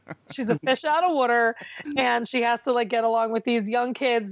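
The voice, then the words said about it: Speaks with a noticeable accent. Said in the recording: “Are you laughing at me saying water? ... made fun of my accent.”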